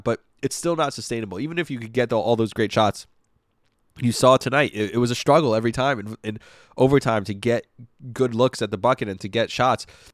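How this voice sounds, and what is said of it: Congested, rough-sounding voice. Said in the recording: “my voice sounds terrible again. I sound congested”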